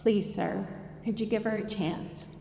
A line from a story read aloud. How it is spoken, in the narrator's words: I stopped him gently and said